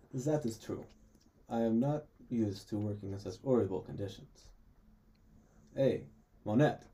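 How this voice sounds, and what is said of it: Put-on foreign accent. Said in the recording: “That's such accent. ... I think you can talk English.”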